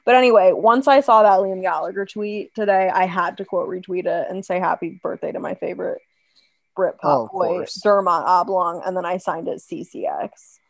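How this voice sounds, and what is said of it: Hoarse, strained voice. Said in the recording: “I'm literally losing my voice. Can you tell?”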